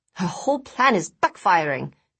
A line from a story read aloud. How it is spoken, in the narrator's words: Daisy sighed